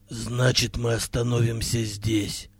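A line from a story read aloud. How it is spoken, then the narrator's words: Tired. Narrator (Russian): устало сказал Хирилак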